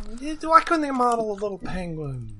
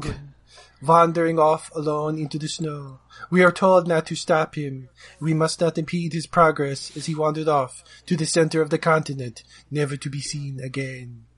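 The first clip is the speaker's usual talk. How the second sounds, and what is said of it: Imitates another person's voice. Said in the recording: “my Werner Herzog like impression ... that sounded like that was definitely Werner Herzog ... I was trying Werner Herzog”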